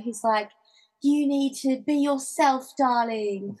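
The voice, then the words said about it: Put-on British accent. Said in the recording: “British guy ... That's totally not his accent.”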